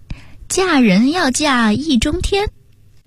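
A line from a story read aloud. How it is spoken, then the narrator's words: Leisurely, joking tone. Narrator (Chinese): 又悠悠地带着开玩笑的口吻说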